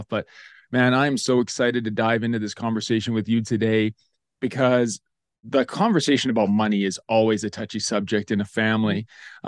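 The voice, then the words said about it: Groggy morning voice, throaty. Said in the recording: “you still have your morning voice, you still got like that fog in your throat ... my voice sounds a little bit off”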